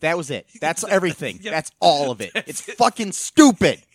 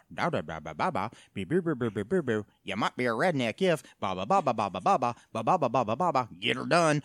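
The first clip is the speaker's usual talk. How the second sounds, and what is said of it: Mimics a blue-collar comedian's voice. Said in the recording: “my impersonation of every blue collar comedy tour video I've ever seen”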